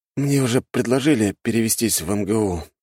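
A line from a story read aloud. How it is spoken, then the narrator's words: Sighing. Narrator (Russian): вздохнул Таксин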